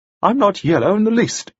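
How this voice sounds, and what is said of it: Cold voice. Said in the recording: “In a cold voice,”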